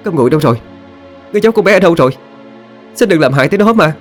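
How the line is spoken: Panicked loud shout. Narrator (Vietnamese): Lâm Anh không giữ nổi bình tĩnh nữa, cô hét lớn lên

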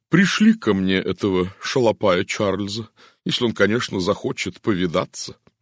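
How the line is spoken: Sighing woman. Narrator (Russian): наконец вздохнула она

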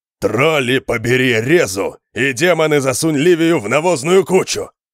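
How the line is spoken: Growling roar. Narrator (Russian): От рычания Конана

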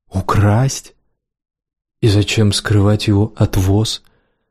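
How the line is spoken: Bitter sigh. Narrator (Russian): Сиена горько вздохнула

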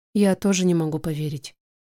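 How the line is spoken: Quiet. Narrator (Russian): говорю я тихо

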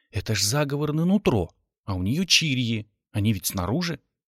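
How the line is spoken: Quiet speech. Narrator (Russian): негромко сказал

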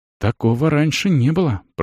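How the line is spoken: Whispered. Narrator (Russian): прошептала соседка

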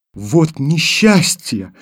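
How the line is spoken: Exclamation. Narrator (Russian): воскликнула Таня

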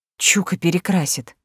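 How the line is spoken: Blissful exhale. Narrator (Russian): выдохнула с блаженством

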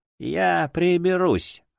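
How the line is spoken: Hoarse. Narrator (Russian): ответила она хрипло

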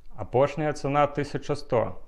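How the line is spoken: Plain. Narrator (Belarusian): кажа Ясь

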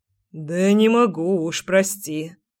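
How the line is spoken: Hoarse mutter. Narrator (Russian): хрипло пробормотал мужчина

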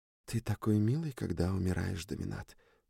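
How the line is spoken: Whisper. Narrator (Russian): прошептала Сьюн

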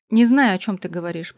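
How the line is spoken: Mumbled. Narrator (Russian): пробубнил Михей

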